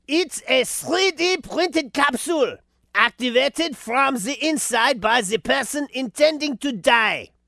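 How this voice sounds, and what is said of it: Put-on Swiss accent. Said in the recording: “how can I do a Swiss accent? The thing about a Swiss accent is it's somewhere between a French accent and a German accent, but it's more diabolical. And it's kind of hard to pull off.”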